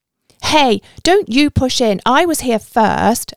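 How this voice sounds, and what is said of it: Aggressive voice. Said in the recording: “in an aggressive voice.”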